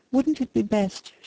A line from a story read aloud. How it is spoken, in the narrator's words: she continued, speaking nervously